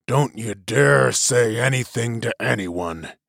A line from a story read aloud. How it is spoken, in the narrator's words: he growled to Till and Jilin